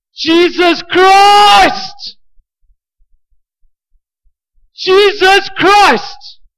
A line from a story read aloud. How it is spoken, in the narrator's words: I scream out